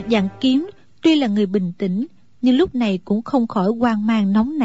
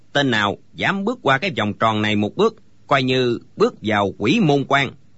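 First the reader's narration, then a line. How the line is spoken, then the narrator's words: Old man, cold. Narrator (Vietnamese): lão lạnh lùng nói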